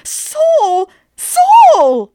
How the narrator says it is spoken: Miss Mage gave a small shriek and ran forward, crying

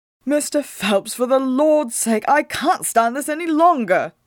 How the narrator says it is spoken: Whitmo cried

